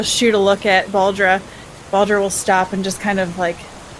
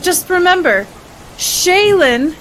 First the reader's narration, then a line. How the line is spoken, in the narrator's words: says it very loudly